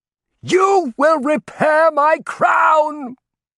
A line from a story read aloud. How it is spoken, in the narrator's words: he shouted